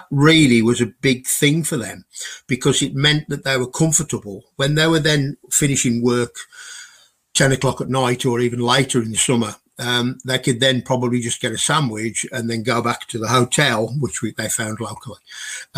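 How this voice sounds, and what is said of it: Strong Glaswegian accent. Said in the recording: “my accent's pretty strong. Trying to understand a real Glaswegian”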